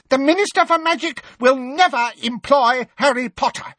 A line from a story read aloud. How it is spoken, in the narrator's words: said Umbridge, her voice rising furiously